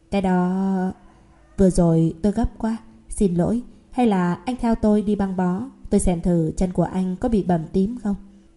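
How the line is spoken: Shy, smiling. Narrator (Vietnamese): Cô y tá khẽ mỉm cười, có chút xấu hổ

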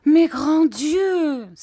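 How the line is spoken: Mother exclaiming. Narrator (French): s'écriait ma mère

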